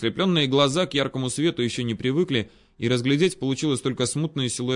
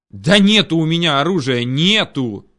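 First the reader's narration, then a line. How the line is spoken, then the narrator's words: Angry shouted reply. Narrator (Russian): психанув, заорал я в ответ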